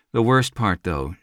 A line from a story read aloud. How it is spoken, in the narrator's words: sighed